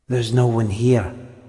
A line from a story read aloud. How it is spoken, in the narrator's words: whispered Tom, as if that explained everything, made it safe